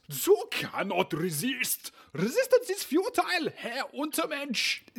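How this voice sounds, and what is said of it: Dr. Strangelove-style German accent. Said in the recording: “is this Werner Herzog or the Borg? I feel like you're mixing it all up. ... I was going for more of a Dr. Strangelove vibe ... straining the impression any further”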